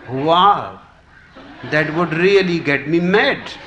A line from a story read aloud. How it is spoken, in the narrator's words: exclaimed the bartender